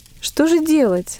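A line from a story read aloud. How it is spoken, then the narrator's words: Frightened question. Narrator (Russian): испуганно спросила Мария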